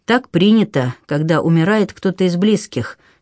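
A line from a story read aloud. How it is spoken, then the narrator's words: Calm reply. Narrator (Russian): спокойно ответила мама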